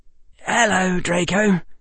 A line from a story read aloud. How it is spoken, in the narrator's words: Harry said quietly